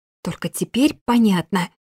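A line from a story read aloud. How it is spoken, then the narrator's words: Defensive hiss. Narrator (Russian): прошипела я, не желая снова быть зажатой в укромном уголке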